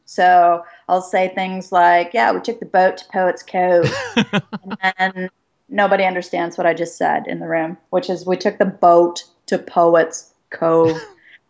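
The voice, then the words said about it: Distinct Vancouver Canadian accent. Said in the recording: “I've been told a distinctly Vancouver accent.”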